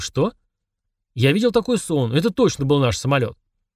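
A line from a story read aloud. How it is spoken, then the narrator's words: Exclaimed. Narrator (Russian): Барни воскликнул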